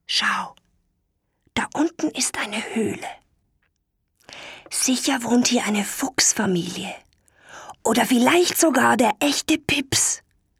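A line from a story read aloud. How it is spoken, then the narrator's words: Whisper. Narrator (German): flüsterte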